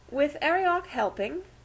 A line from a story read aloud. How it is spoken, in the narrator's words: she inquired anxiously